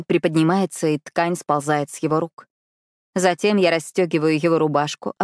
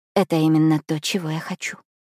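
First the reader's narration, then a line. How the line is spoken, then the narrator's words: Soft, trembling. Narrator (Russian): мягко отвечаю я, несмотря на бьющую меня дрожь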